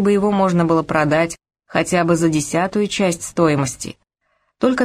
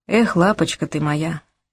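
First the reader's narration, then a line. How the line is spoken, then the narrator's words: Bitter sigh. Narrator (Russian): горько вздохнул я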